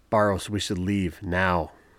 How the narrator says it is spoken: cried out

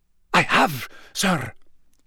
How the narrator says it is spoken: he said, and although his voice was very scared, Harry could still hear the familiar, unctuous note in it

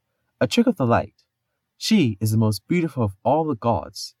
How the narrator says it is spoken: said the maiden, who was Loki, smoothly

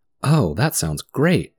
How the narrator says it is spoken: exclaimed Dorothy eagerly

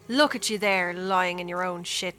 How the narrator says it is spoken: she cackles

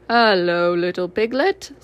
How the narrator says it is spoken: said Eeyore

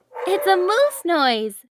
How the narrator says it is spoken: giggled Emma

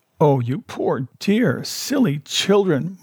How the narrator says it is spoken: my wife cried

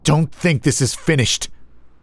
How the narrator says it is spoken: growled

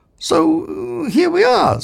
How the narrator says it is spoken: said Zaphod hesitantly

